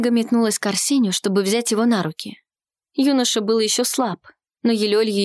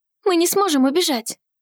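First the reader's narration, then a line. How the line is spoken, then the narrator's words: Hurried. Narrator (Russian): Торопливо сказала она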